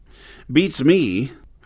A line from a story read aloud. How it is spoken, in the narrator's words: James said irritably